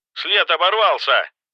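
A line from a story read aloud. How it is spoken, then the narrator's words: Shouting into phone. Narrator (Russian): прокричал в телефон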